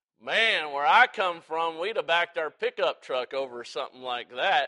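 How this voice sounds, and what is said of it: Exaggerated Southern drawl. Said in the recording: “I put on the biggest southern drawl that I could ... I was playing it up”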